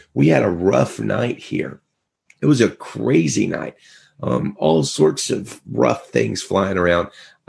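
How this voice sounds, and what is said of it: Strained, fading voice. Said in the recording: “I'm kind of losing my voice today”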